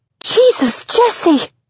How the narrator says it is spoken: scream

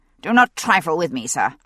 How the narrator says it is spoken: the magistrate said curtly

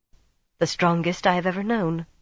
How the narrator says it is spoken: Amis said simply, calmly

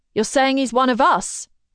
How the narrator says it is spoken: Someone shouts, and a burst of annoyance rings out

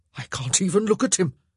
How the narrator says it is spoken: he gasped

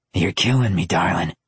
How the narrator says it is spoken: he told her, on the verge of a growl

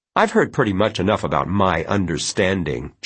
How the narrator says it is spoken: Janet snapped

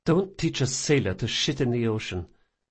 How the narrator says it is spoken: she muttered

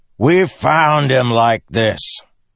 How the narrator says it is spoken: Teft of Bridge 4 shouted back

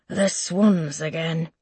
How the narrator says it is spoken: he murmurs

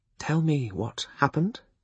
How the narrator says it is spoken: he requested quietly

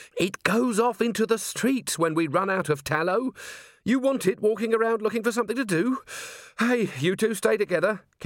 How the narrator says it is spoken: Carrie added urgently

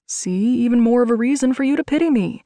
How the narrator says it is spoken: argued playfully

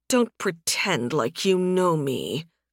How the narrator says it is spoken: Sunstorm mumbled

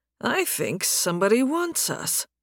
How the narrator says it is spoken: Nathan muttered

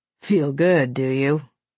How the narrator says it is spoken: He chuckled

